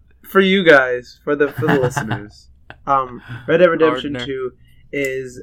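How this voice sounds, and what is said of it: Usual voice. Nothing is said of it.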